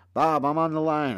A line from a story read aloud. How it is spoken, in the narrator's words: they'll yell to their partner